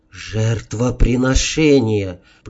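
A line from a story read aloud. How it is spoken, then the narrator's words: Through clenched teeth. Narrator (Russian): процедил я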